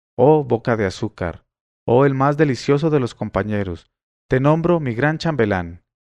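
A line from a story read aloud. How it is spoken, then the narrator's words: Sultan exclaiming. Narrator (Spanish): Cuando el sultán hubo oído esta historia, exclamó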